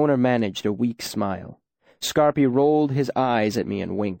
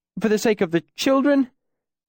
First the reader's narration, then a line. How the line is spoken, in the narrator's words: the bald man pleaded